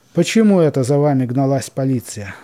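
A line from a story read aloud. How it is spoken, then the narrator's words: Menacing question. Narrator (Russian): спросил Степан грозно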